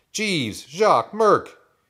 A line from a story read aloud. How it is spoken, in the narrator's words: A voice yelled from the barn door